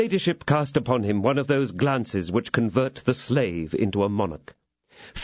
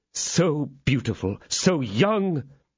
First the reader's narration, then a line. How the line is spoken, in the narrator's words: exclaimed Felton